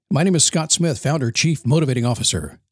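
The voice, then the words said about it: Deep announcer-style radio voice. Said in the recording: “especially when I use the radio voice.”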